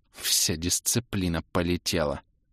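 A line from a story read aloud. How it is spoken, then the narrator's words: Baroness's furious hiss. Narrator (Russian): зашипела яростно баронесса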